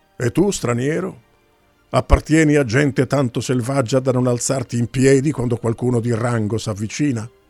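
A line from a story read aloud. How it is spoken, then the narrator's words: Brusque voice. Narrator (Italian): disse con voce brusca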